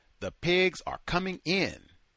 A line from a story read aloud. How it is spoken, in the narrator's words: Smith shouted